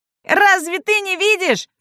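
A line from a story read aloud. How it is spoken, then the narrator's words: Gnome shouting angrily. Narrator (Russian): кричал на нее гном Юхан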